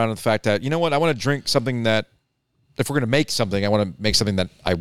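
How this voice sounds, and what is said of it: Usual voice. Nothing is said of it.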